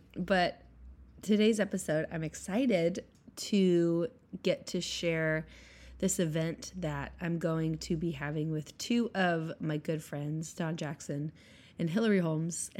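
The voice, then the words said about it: Rough, congested voice. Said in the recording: “excuse my voice. I've had a cold all week.”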